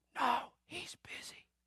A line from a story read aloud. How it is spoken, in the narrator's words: The little guy whispers